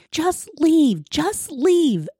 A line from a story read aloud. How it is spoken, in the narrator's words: a woman screaming